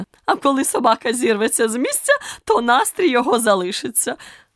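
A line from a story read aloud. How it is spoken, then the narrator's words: Queen's triumphant exclamation. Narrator (Ukrainian): переможно вигукнула королева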